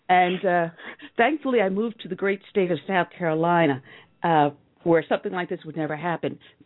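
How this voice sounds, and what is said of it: New York accent. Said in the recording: “I'm former New York, you know, as you can tell from my dialect.”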